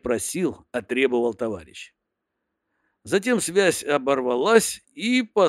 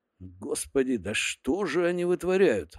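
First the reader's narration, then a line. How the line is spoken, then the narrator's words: Inner groan. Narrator (Russian): в уме простонал я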